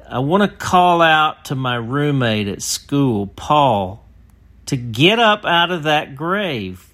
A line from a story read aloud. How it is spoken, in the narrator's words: a young man stepped up and grabbed the mic and shouted